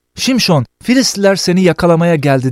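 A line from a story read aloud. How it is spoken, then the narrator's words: Shouting. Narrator (Turkish): diye bağırır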